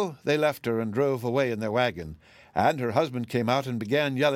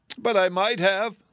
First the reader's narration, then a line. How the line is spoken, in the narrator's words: exclaimed began to cry again